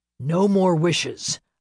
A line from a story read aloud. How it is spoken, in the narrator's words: Lachlan ... shouting over the angry rumblings of the pack